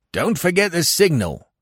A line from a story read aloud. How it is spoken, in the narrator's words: Weymouth cried after me